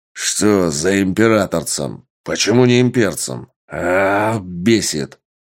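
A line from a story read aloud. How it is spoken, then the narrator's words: Big man growling. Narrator (Russian): прорычал здоровяк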